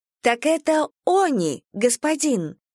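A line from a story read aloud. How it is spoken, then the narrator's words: Cheerful reply. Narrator (Russian): Весело откликнулась Рен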